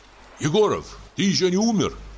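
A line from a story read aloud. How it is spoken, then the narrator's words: Shouted. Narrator (Russian): крикнул я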